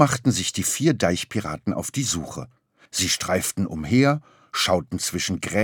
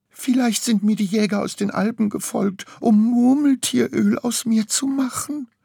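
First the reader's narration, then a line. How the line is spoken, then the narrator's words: Whimpering marmot. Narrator (German): wimmerte Murmeltier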